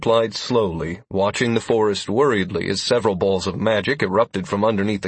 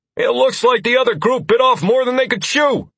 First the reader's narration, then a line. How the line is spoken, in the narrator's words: Constantine called out